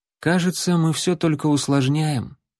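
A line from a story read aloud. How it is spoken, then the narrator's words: Sad. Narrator (Russian): печально сказала принцесса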